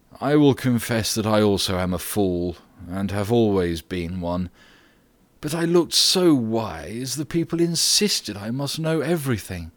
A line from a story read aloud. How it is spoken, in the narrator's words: sighed Socrates